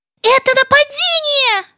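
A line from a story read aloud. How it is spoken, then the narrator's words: Shout. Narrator (Russian): закричала Ляля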